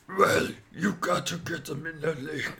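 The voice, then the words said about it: Impression of a British man's voice. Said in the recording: “my world famous Billy Robinson impersonation ... He was the British stretcher guy”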